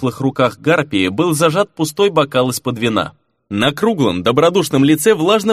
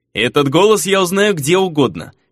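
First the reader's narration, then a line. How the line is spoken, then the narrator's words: Chuckling. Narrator (Russian): хохотнул Фернан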